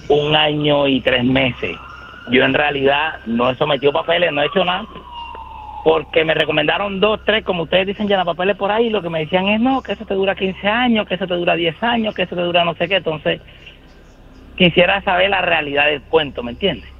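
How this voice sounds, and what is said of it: Colombian Cartagena accent. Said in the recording (Spanish): “Cartagenero. ... se le siente el acento”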